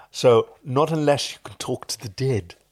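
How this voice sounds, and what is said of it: Snape voice, lips off teeth. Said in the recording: “I'm going to do someone's impersonation of Severus Snape ... the way to do Snape is to speak without letting your lips touch your teeth.”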